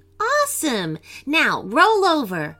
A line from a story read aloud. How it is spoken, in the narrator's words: Yana laughed and then said